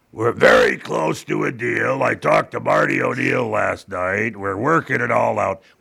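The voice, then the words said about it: Impression of a politician. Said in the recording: “my impression of a politician, both Republican and Democrat”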